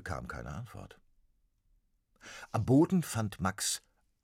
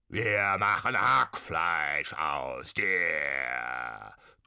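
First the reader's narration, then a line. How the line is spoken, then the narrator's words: Bawling, croaking mean ghosts. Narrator (German): gröhlten und krächzten die gemeinen Säbelgeister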